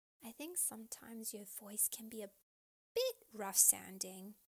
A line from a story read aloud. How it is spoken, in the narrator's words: Hooney said gently to Khawler